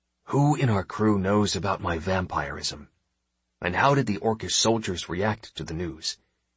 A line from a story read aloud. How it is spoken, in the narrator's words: Lowering my voice to a whisper, I asked my first mate